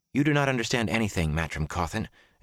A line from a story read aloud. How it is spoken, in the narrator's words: Egwene said in a tight voice